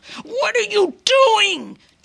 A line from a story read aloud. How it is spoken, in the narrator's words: Dad bellowed